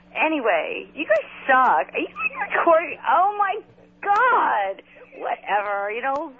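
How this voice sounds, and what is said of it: Valley girl style voice. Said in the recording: “I sound like a fat girl or something... my voice sounds like I'm a fat chick or something... Or like a valley girl from, like, Hello 1986 called. They want their voice back... I sound like such a doofus”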